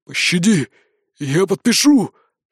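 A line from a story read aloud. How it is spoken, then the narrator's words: Hoarse wheeze. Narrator (Russian): просипел он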